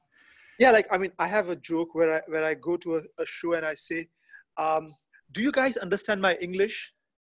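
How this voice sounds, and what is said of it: Indian accent. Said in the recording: “it's Indian accent.”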